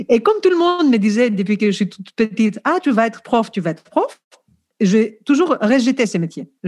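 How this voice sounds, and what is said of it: Greek accent speaking French. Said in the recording (French): “je suis grec, je pense que vous l'avez compris déjà par mon accent.”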